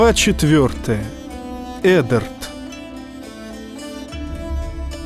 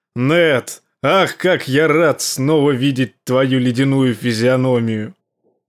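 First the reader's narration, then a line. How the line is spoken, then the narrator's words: Laughing loudly. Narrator (Russian): Король расхохотался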